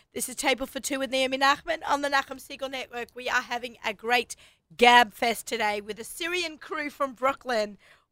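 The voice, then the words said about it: Australian accent. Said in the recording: “I've got an Australian accent.”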